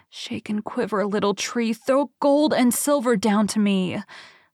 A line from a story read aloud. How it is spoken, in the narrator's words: cried out